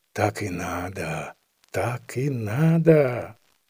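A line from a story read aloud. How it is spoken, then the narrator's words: Whispered. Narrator (Russian): Семенов, видя, как таскали хори, шептал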